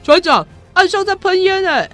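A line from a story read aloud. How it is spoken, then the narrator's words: Helmsman shouting. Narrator (Chinese): 舵手在喊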